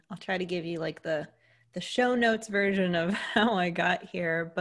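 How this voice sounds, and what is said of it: American accent. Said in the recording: “if you couldn't tell from the accent, I'm an American.”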